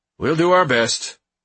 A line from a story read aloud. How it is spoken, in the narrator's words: the man replied curtly